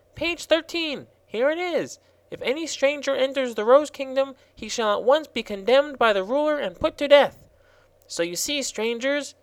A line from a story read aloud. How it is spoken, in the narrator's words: he continued triumphantly